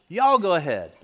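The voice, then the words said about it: Put-on Southern US accent. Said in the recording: “a good Southern accent”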